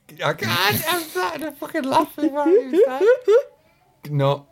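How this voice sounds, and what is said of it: Usual voice. Nothing is said of it.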